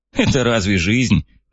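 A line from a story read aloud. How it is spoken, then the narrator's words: Snorting. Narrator (Russian): фыркнул Фред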